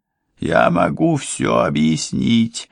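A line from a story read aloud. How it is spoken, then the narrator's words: Groaning. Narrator (Russian): простонал Иосия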